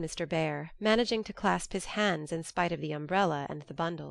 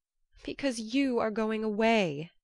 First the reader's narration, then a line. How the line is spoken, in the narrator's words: answered, with an irrepressible sob